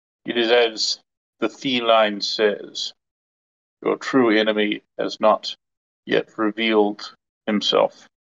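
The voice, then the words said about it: Surprisingly deep character voice. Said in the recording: “in a surprisingly deep voice”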